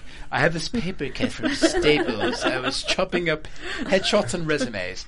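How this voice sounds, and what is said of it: Bad put-on British accent. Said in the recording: “horrible British accent”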